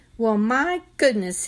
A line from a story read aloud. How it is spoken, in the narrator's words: said cheerfully